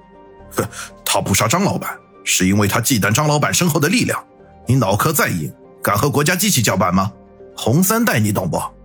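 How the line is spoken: Angry. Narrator (Chinese): 大强怒道

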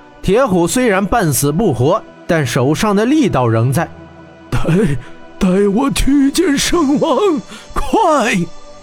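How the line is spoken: Trembling voice. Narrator (Chinese): 铁虎颤声道

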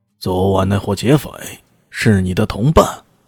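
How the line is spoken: Cold. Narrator (Chinese): 这为首的是个白头包布的络腮胡子，冷冷的说道

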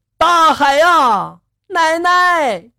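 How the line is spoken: Child shouting. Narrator (Chinese): 儿子也跟着大喊了一声

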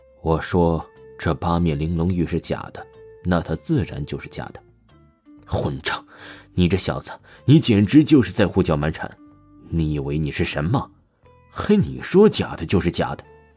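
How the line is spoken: Angry scolding. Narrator (Chinese): 钱锋立刻大骂说道

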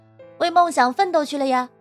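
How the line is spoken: Calling someone back. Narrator (Chinese): 李良华叫住易如空

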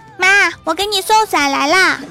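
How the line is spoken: Little girl shouting. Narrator (Chinese): 一个小萝莉对一个服务员大喊

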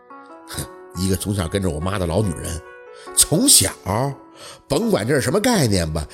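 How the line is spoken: Angry, through gritted teeth. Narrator (Chinese): 陆佩脸已经黑了，咬牙吐出一句

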